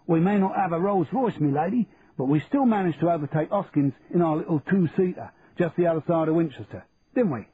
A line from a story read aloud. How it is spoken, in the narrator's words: said Charlie in a broad Cockney accent